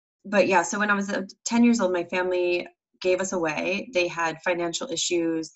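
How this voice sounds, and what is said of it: Rough, sick-sounding voice. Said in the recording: “my voice sounds bad because I actually have been battling a bit of a cold”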